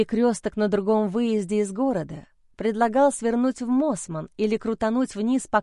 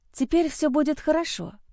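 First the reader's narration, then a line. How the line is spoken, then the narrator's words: Breathed under breath. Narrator (Russian): выдохнула я себе под нос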